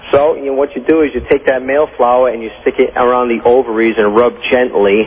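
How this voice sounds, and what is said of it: Rhode Island accent. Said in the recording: “You talk like one of those mobbed up gangsters on The Sopranos ... that's a Rhode Island accent ... you got a Rhode Island accent”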